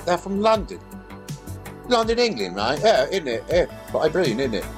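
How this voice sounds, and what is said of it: Put-on English accent. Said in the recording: “the last of my English accent”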